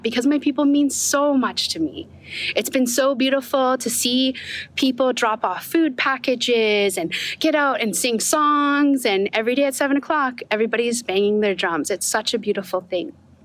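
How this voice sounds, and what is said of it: Choked-up, emotional voice. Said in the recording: “I'm getting a little bit choked up”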